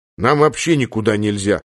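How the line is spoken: Plain. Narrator (Russian): ответил Владимир Павлович

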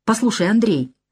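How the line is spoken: Forced softness, hidden irritation. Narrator (Russian): начал он, стараясь говорить мягко, хотя в голосе его я уловил раздражение

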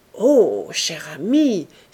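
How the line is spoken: Exclaiming. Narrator (French): s'écria-t-il

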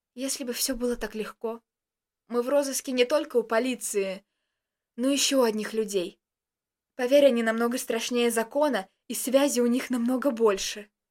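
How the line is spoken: Frightened voice. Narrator (Russian): испуганным голосом произнес Костик

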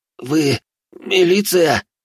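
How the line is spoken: Stunned hoarse wheeze. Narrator (Russian): ошарашенно просипел

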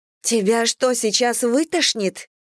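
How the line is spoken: Horrified exclamation. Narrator (Russian): в ужасе воскликнула Дженнифер

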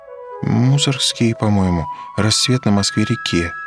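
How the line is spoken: Uncertain. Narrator (Russian): неуверенно сказала Петухова

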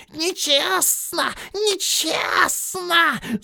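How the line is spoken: Hissing. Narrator (Russian): зашипел он

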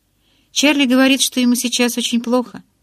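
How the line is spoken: Pleading tone. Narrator (Russian): умоляющим тоном сказала я

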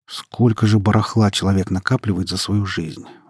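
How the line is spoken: Grumbling. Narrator (Russian): ворчал Саша

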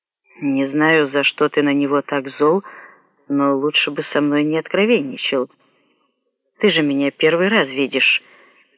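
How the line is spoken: Calm. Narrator (Russian): спокойно сказал Анадера

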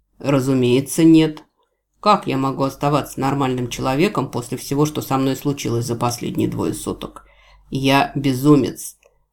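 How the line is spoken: Growling. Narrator (Russian): прорычал Джевидж

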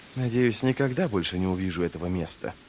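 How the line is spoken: Passionate mutter. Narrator (Russian): пробормотал он страстно

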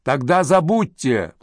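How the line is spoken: Shouted reply. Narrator (Russian): прокричала в ответ Сакс

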